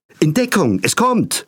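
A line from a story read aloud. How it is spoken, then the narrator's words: Called out. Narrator (German): rief Frau Kümmelsaft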